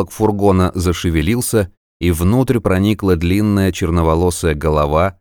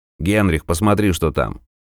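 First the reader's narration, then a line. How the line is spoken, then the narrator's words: Quiet speech. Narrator (Russian): проговорил негромко кто-то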